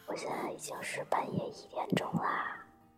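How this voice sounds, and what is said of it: Speaking very quietly, hushed. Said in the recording (Chinese): “对我现在必须小小声的，因为隔壁有人在睡觉。”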